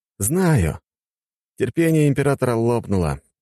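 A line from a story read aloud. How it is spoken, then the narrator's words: Sigh. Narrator (Russian): вздохнул я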